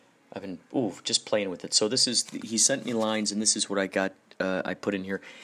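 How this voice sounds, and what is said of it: Usual voice. Nothing is said of it.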